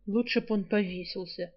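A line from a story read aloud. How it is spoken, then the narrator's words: Gloomy. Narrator (Russian): мрачно заключил Альк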